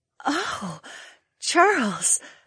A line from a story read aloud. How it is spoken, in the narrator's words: the Vulpes woman gasped